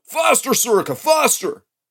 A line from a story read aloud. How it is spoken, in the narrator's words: fired on by the unfairness of it, I'm shouting